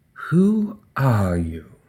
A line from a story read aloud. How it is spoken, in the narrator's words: whispered